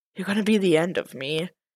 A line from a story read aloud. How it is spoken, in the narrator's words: Clint sighed